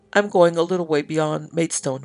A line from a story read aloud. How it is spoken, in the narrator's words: replied Mr